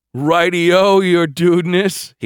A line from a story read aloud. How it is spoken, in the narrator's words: he laughed